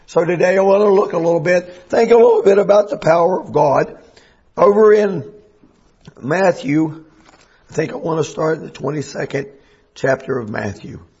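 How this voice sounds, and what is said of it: Strained voice. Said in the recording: “as you can probably hear, my voice has been strained”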